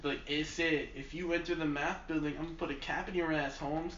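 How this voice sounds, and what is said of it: Poorly done Latino accent. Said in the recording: “I don't claim to be good at that accent... You're definitely not... Latino or... Cuban”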